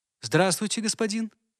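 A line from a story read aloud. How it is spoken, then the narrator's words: Friendly tone. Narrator (Russian): промолвила она доброжелательным тоном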